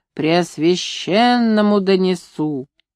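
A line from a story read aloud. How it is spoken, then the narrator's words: Growling with a whistle. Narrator (Russian): длинный человек рычал, присвистывая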